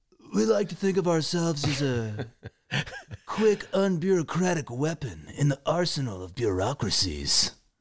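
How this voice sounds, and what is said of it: Imitates another person's voice. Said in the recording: “You were doing your Sean Penn accent from Fast Times at Ridgemont High”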